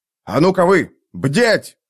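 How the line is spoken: Stern shout. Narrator (Russian): крикнул Торвальд Ном самым своим суровым голосом

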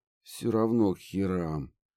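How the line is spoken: Groaning. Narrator (Russian): простонал профессор

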